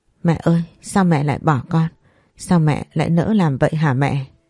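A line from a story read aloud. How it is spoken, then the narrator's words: Tearful mumbling. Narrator (Vietnamese): Nước mắt cứ vậy chảy ra, miệng lẩm bẩm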